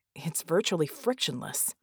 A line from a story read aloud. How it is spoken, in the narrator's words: Red muttered, dumbfounded